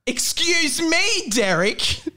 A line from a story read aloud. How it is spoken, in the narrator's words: screamed Rob